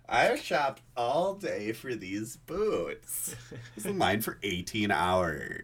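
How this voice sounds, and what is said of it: Mocking voice imitating Helga's mom. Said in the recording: “do a voice whenever I was mockingly imitating women that I realized it was pretty much just Helga's mom”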